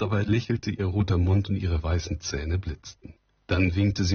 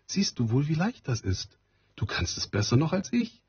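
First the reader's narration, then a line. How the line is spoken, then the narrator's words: Called out. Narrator (German): rief sie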